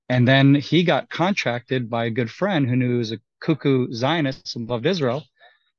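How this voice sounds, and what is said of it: Goofy accent. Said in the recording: “this goofy accent”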